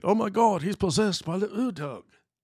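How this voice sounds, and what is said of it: Put-on mock ancient accent. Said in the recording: “That's my ancient Mesopotamian accent.”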